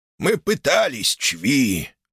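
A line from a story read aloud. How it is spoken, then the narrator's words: Croaking, then bloody coughing. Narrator (Russian): проскрипел Малефик и тут же зашелся надсадным кашлем с кровью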